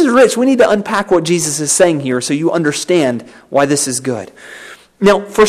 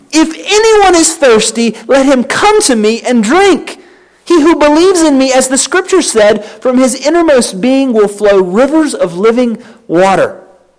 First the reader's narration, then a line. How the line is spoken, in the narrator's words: Jesus stood and cried out, saying